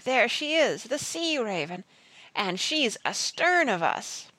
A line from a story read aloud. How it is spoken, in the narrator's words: roared